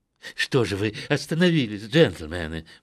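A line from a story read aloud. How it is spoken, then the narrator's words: Exclamation. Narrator (Russian): воскликнул мистер Джолот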